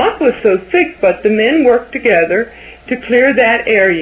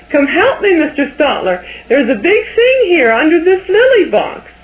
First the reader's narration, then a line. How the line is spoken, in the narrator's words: Now it was his turn to shriek